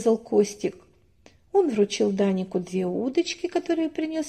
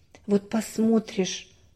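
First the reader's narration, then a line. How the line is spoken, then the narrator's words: Mother's sigh. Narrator (Russian): вздохнула мама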